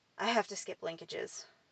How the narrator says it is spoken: I sighed

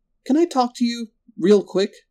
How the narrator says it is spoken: she asked, biting her lip nervously

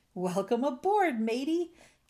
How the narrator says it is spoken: Captain Dalbert shouted

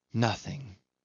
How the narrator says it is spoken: she sighed out

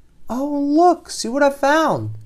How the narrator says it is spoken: she exclaimed

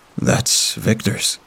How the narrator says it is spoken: Mike murmured

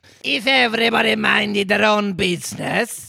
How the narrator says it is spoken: the Duchess said in a hoarse growl

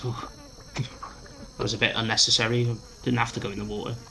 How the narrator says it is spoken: pants, and he goes

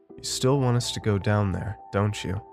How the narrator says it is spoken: asked

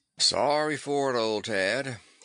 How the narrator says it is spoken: he would drawl

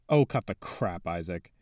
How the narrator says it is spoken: Harold growled

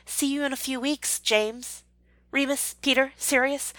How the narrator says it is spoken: she added hastily with a flush

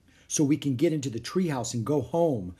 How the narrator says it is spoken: said Annie

